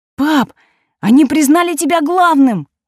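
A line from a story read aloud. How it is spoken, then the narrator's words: Exclaimed. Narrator (Russian): воскликнул Марко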